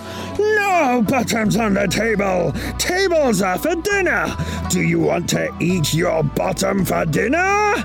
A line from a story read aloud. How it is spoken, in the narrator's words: Chen turned the colour of a raspberry, and his eyebrows looked like an arrow sharp enough to poke through an apple, and he roared